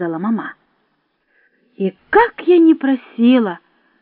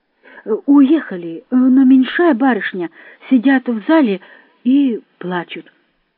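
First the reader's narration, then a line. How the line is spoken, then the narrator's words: Plain. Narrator (Russian): сказал Прокофий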